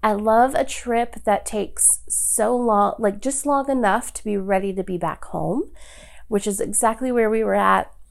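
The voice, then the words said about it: Sick-sounding, affected voice. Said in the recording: “I have COVID. Ugh. ... apologize for my voice. Sorry, friends.”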